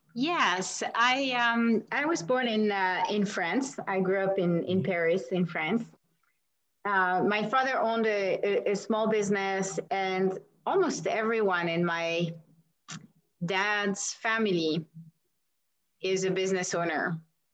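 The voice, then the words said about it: Slight foreign accent. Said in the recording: “I'm detecting a bit of an accent.”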